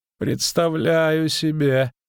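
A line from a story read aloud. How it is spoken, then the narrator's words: Groaning. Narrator (Russian): простонал Дайнти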